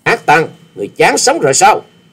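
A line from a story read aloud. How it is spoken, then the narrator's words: Furious loud shout. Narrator (Vietnamese): chàng cũng nộ khí xung thiên quát lớn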